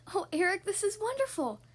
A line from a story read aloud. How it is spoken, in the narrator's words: Ariel said excitedly